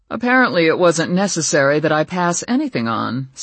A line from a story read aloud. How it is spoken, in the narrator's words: said Kyle dryly